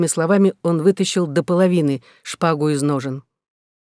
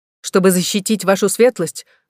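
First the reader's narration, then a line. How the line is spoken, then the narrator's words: Exclamation. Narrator (Russian): воскликнул паж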